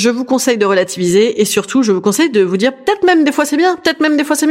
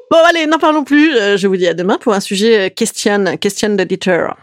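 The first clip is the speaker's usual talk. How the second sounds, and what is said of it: Grotesque put-on accent. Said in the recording (French): “je sais pas pourquoi j'ai cet accent grotesque”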